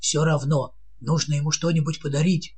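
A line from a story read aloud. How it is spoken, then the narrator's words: Whisper. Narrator (Russian): прошептал президент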